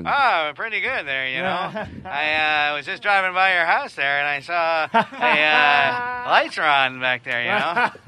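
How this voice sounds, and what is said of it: Norm MacDonald impression. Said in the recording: “Sure, I do impersonations... some of my impersonations are so good... Norm MacDonald's on the phone”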